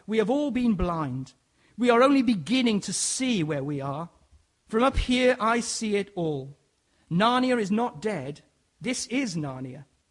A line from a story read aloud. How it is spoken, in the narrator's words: cried